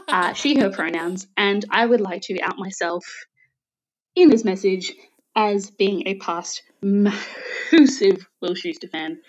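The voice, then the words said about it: Australian accent. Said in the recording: “I am Australian, so I am taking the Australian accent box for you.”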